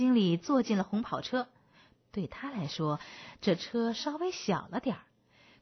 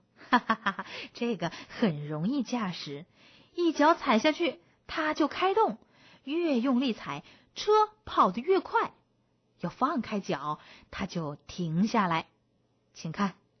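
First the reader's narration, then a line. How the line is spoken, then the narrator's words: Laughing. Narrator (Chinese): 星星经理笑着说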